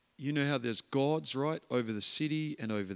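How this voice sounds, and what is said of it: Imitated New Zealand accent, not very good. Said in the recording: “This is my New Zealand accent, not very good”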